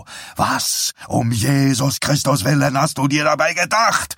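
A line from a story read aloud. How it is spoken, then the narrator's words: Angry shouting. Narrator (German): schrie er sie an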